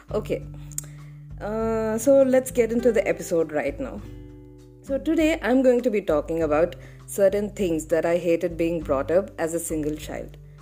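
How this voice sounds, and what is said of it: Rough voice from sore throat. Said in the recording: “I'm having a bad throat condition”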